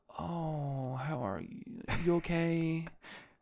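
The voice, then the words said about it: Mock concerned voice, heavy vocal fry. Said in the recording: “why you have vocal fry turned up to 100, dude?”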